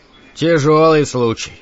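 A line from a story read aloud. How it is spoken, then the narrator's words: Sighing. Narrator (Russian): вздохнул Гарриш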